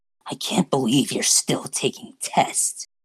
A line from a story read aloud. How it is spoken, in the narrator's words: Shigaraki muttered